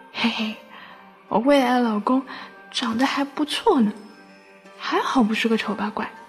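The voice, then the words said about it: Quiet, hushed speaking. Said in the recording (Chinese): “小声的说”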